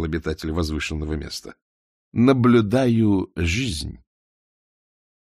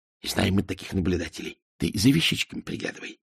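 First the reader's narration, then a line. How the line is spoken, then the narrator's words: Whisper. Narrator (Russian): шепнула девке спекулянтка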